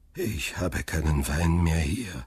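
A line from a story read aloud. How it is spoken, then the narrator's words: Old man sighing. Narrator (German): seufzte der Alte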